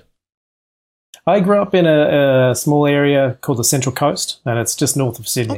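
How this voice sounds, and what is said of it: Australian accent. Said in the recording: “they're going to immediately pick up that you have an accent, even though you live in LA. You're Australian, right?”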